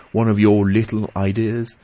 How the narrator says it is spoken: I exclaimed, much relieved

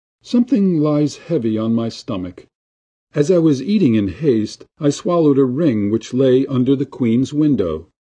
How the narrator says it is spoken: one said in a pitiful tone

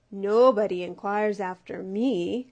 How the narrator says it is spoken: croaked the bullfrog

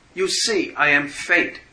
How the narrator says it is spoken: it shouted

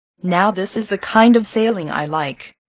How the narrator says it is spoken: said Mr

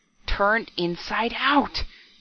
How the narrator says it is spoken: he gasped hoarsely

